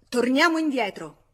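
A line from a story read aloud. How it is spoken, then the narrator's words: Shouted. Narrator (Italian): Georges gridò al vetturino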